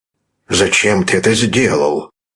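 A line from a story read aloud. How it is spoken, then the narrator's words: Stern fatherly question. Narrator (Russian): спросил отец строгим голосом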